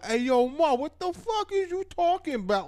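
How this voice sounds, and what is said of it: Mock New York accent. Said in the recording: “you guys have the dumbest accent ... not everybody talks like that”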